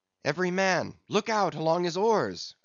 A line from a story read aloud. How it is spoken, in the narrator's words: cried Starbuck